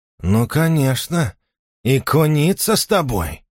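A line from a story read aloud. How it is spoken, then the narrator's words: Hiss. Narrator (Russian): прошипел он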